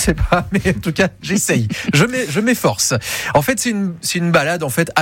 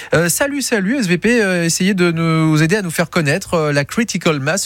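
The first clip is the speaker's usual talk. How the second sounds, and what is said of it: Put-on accent. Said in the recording (French): “Je ne sais pas s'il faut le dire avec l'accent à chaque fois ... Vous avez un bel accent”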